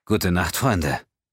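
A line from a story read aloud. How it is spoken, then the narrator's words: Serious voice. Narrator (German): erklärte mit ernster Stimme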